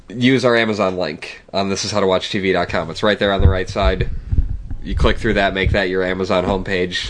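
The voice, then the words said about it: Sick-sounding voice. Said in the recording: “he's making fun of my sick voice ... I'm not putting on my announcer voice, I'm just sick.”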